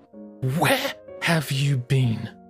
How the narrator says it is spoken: she snapped, her teeth chattering loudly

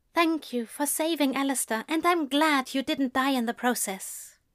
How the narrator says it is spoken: she said quietly, her face pressed into his chest

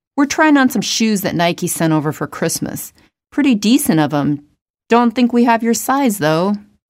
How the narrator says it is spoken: chuckled

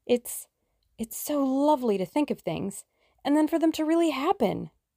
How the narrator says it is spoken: cried Tuppence enthusiastically

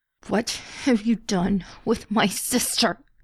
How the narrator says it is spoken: he forced out through gritted teeth

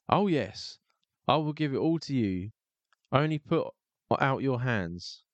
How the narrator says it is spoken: Tom Thumb called out once more as loud as he could

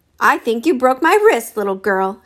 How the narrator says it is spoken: Shannon roared

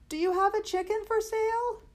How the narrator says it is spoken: Arthur shouted

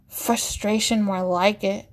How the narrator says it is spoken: Anders grumbles

